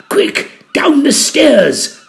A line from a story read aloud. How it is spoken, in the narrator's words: I gasped